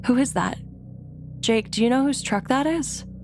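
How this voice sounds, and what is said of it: Terrified, frightened voice. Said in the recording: “In a terrified voice,”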